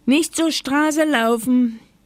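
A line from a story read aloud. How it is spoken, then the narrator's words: Grandmother calling from window. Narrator (German): rief Oma Huber vom Fenster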